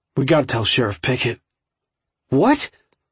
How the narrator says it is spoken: Jared asked harshly

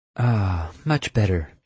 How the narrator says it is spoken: she sighed

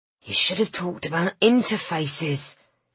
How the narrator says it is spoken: hissed Griffin

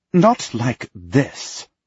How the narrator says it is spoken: she says sharply

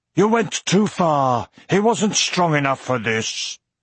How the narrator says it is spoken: He heard Auric exclaim from behind him

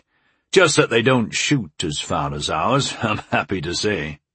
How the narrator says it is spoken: he chuckled

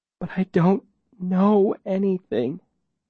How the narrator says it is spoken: she says weakly

